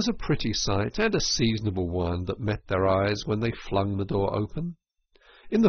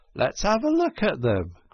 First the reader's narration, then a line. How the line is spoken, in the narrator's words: cried the rat